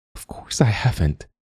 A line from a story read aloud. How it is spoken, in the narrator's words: whispered Lupita